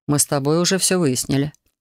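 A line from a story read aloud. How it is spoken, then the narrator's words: Calm reply. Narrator (Russian): спокойно ответил Хантер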